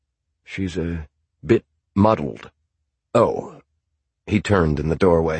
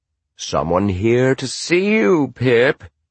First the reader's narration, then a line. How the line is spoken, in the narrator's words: said Hobie in a loud and cheerful tone